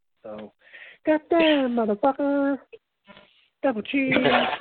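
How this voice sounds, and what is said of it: Imitates another person's voice. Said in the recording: “that is my impersonation of Bruce Prichard's impersonation ... Yeah, it's horrible. It's horrible.”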